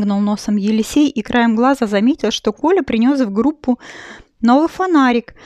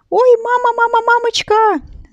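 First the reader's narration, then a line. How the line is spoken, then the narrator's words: Sudden shout. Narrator (Russian): закричал вдруг Елисей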